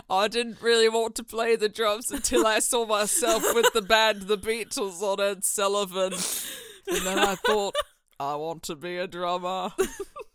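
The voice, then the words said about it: Put-on mid-century American politician accent. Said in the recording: “You almost sound like JFK when you do this accent ... You are sliding so into JFK”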